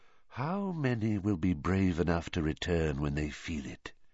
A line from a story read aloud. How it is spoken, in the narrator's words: whispered